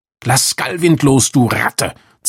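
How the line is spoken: Hissing. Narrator (German): zischte Rasterlocke

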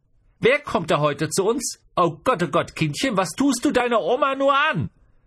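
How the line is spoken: Exclaiming. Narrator (German): Und genau das rief sie auch aus

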